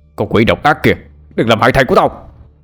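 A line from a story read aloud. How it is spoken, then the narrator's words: Angry bellow. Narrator (Vietnamese): ông Cương giận dữ gào lên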